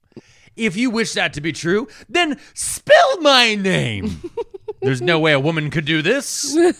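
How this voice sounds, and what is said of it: Imitates another person's voice. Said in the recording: “That's the most Conan impersonation I've ever done.”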